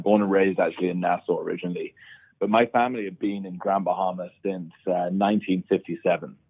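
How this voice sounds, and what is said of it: British accent. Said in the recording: “I speak with a British accent”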